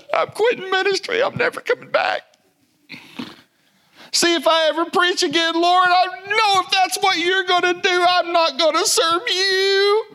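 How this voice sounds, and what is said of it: Whiny baby voice. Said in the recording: “I have a good baby voice. It's had a lot of practice.”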